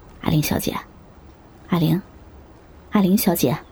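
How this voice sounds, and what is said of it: Man calling softly in whisper. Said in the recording (Chinese): “一个男人很小声的在叫着”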